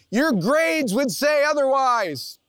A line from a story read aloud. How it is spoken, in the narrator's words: my mom would yell